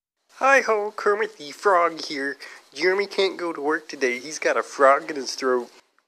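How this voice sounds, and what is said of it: Kermit the Frog impression. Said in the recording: “best Kermit the Frog impersonation.”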